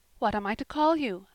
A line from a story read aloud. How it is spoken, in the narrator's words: asked Anne